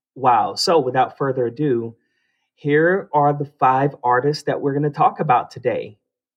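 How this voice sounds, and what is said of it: Voice sounds slightly different, sleepy. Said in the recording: “my voice sounds just a little bit different. I haven't fully woken up.”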